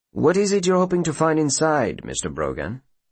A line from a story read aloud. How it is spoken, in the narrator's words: the ringmaster asks calmly